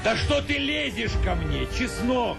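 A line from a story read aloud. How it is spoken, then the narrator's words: Shouted. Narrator (Russian): крикнул Яков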